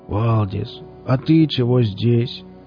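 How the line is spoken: Glum question. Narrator (Russian): уныло поинтересовался Велес

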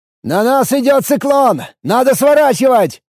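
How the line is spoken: Shouting over a storm. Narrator (Russian): прокричал я сквозь усиливающийся ураган

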